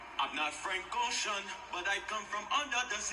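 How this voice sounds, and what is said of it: Put-on Jamaican accent. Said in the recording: “let me do my Jamaican accent... y'all know I can do the best Jamaican accent out there... my best Jamaican accent”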